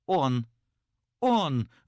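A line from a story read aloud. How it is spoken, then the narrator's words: Sudden exclamation, young woman. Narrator (Russian): вдруг воскликнула молодая женщина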